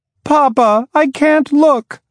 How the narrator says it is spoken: cried the children

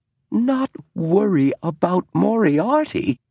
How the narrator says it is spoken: cried James

